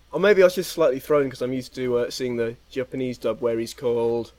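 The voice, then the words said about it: English accent. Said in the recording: “your crazy English accent”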